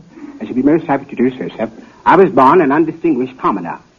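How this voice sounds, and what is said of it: British accent. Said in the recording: “an African prince with a British accent”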